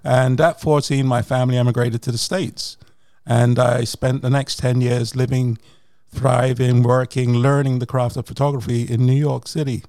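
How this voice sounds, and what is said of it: British English accent. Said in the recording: “The UK, as you can, guys can hear his accent.”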